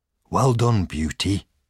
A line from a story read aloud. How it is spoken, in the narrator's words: said John